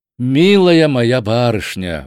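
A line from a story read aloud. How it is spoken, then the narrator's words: Fervent exclamation. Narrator (Russian): воскликнул с жаром Холмс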